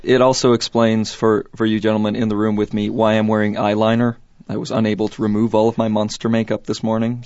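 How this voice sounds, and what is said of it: Hoarse, strained voice. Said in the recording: “apologize first off for my voice today ... my voice is shot”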